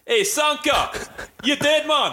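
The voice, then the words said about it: Jamaican accent, Cool Runnings character. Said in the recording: “I reckon I'd take a nice Jamaican accent... You know the dude, you know from like Cool Runnings?... Put that Jamaican voice on.”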